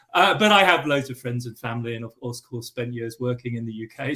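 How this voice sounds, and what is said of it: English accent. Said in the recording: “I have an English accent”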